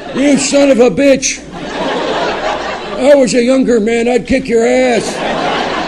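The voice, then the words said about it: Impression of an old man's voice. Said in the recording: “That was an impression of my grandfather.”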